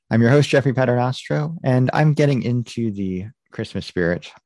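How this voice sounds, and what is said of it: American accent. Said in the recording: “with an American accent.”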